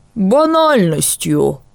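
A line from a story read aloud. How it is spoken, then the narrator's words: Grumbling owl. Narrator (Russian): буркнул филин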